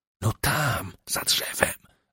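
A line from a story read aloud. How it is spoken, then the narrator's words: Whispered right into ear. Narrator (Polish): wyszeptała, prawie dotykając ustami jego ucha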